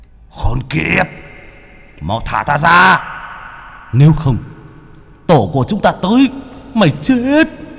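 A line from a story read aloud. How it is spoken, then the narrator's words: Roaring threat. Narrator (Vietnamese): Chúng gầm thét lên hăm dọa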